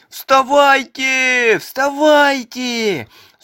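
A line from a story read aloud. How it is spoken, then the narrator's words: Old beaver shouting. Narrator (Russian): закричал старый бобр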